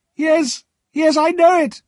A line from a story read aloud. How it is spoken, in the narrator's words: Miss Havisham cried